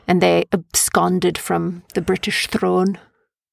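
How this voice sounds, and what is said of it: Weird put-on accent, not very good. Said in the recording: “I did a weird accent there. It wasn't even like a really good accent.”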